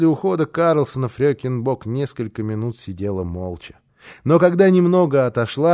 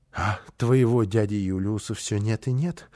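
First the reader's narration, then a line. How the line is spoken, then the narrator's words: Sigh. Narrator (Russian): вздохнула она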